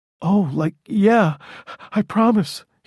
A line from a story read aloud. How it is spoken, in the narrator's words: he said breathlessly